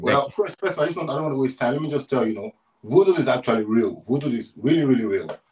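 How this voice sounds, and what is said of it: Nigerian English accent. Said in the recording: “We got another accent ... are you Caribbean or African? ... I'm from Nigeria”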